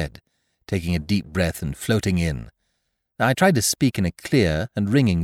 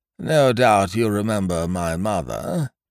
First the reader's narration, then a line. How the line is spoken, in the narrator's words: said Professor Pringle mournfully